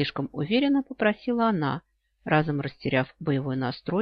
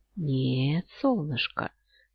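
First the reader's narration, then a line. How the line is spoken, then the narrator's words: Coaxing, insinuating reply. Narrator (Russian): вкрадчиво отозвался светлый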